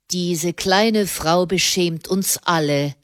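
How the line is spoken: Plain. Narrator (German): sagte er

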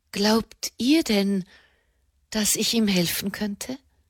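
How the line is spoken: Quiet question. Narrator (German): fragte sie leise

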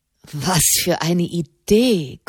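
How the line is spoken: Panting. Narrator (German): keuchte

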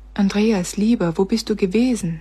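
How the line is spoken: Plain. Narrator (German): fragte sie

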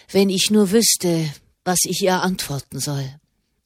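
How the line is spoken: Murmured. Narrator (German): murmelte er

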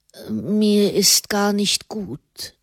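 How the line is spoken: Unwell murmur. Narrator (German): murmelte Fra Raymond

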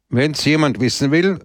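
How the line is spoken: Loud. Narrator (German): sagte er laut

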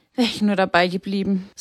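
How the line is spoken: Sighing. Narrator (German): seufzte sie

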